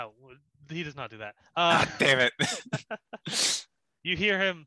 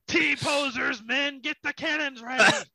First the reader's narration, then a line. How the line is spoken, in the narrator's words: Captain Gilly Goffin yell out